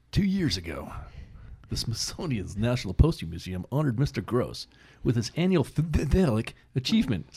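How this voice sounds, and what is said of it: Cool announcer-style voice. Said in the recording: “Try some, like, cool announcer voice. ... Ooh, I like that ... voice. ... I like that voice, too.”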